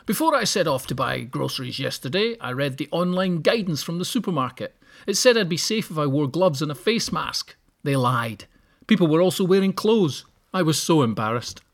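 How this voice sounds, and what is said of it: Posh voice. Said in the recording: “give him a posh voice like that? He doesn't sound like that at all.”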